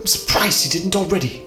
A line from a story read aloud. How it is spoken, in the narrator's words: Cal hissed, panic in his voice